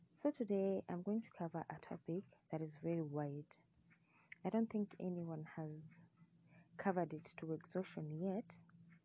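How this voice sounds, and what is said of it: Congested, sick-sounding voice. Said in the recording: “I have a cold, so I hope I'm going to be as clear as possible and that my voice is going to be tolerable”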